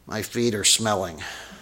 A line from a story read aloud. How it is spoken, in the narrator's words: she mumbled again, which was really hard to understand, but she said